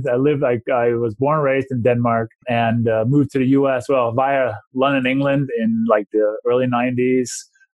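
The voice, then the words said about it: Foreign non-American accent. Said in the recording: “if people may be able to hear from my accent or my name, I didn't grow up in this country”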